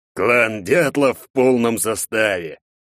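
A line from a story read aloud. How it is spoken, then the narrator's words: Growling undertone. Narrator (Russian): рычащих ноток в голосе главного управляющего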